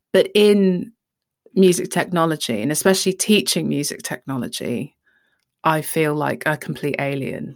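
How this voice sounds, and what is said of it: Southeast English accent. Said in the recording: “I have a Southeast English accent”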